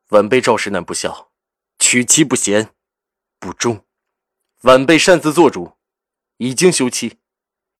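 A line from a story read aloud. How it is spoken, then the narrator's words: Deep, solemn. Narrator (Chinese): 赵世南沉声说着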